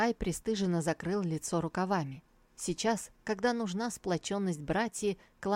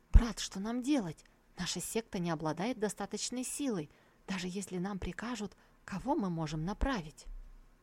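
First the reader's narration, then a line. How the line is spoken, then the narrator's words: Frightened whisper. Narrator (Russian): Цанхай испуганно зашептал Тантай Цзиню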